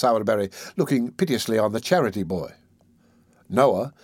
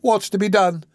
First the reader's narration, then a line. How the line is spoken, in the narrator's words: exclaimed Mrs